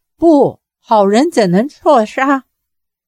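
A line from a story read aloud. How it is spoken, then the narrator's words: Crying out. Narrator (Chinese): 郭靖叫道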